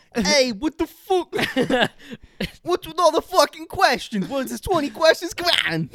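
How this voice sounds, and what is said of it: Put-on Boston accent impression. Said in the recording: “just comes with his Boston accent.”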